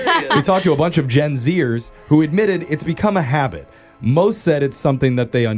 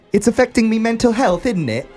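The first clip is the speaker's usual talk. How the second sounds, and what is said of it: Put-on British accent. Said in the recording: “she said in a British accent”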